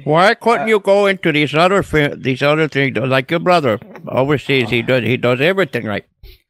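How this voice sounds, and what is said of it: Poor put-on Indian accent. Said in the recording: “That was horrible ... That was a terrible Indian accent.”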